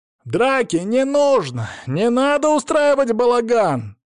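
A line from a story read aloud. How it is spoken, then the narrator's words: Yelling. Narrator (Russian): заорал он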